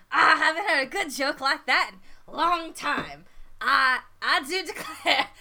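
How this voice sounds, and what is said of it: Character voice with inconsistent accent. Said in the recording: “my accent's going all over the place”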